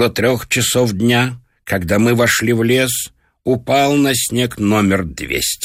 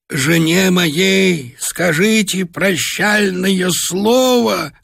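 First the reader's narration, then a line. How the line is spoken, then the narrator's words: Hoarse wheeze. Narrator (Russian): хрипел он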